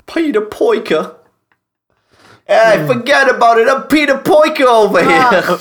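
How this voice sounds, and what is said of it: Mixed Cockney and New York accent. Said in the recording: “You've fused Cockney and New York together. I hate it.”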